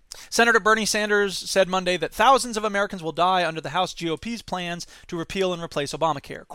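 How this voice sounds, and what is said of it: Usual voice. Nothing is said of it.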